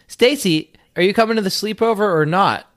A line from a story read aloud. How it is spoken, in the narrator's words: yelled